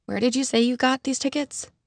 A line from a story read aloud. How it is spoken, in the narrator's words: I murmured to Charlotte